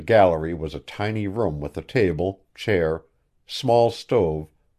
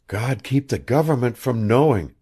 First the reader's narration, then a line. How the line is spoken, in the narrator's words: breathed the girl